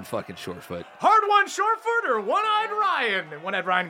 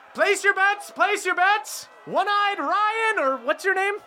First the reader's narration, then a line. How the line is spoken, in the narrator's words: the Kanku yells